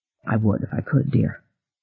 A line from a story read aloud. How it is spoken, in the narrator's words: he said gently